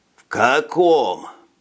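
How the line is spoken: Groaning. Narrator (Russian): простонал Скабет

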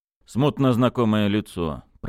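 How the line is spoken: Grumbling. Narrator (Russian): проворчал Бердыш

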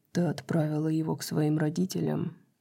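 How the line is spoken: Quiet speech. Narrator (Russian): тихо сказал ангел

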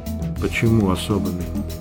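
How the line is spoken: Quiet question. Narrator (Russian): тихо спросила Сюте

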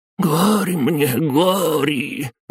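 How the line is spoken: Wailing old man. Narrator (Russian): взвыл седой старик

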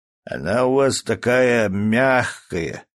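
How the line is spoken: Drawled. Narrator (Russian): протянул Костя

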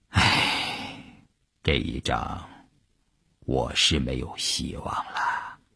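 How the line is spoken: Soft sighing. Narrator (Chinese): 他叹了一口气，轻轻地说

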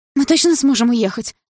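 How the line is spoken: Frightened. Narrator (Russian): испуганно спросила я

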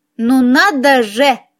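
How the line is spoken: Snide snort. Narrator (Russian): ехидно фыркнула

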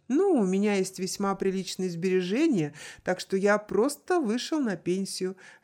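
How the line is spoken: Laughing. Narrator (Russian): рассмеялся Амата

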